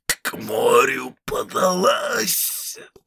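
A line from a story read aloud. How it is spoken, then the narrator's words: Choked hoarse rasp. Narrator (Russian): прохрипел Понти, тщетно царапая и дергая душившую его петлю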